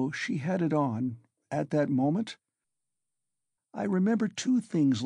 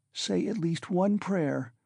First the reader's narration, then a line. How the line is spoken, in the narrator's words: Sonia begged in a timid, broken voice